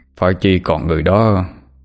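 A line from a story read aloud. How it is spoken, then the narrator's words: Sighing lament. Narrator (Vietnamese): lắc đầu, thở dài mà than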